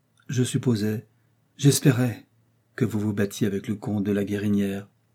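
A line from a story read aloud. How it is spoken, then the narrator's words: Calm, firm voice. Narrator (French): dit-elle d'une voix calme et ferme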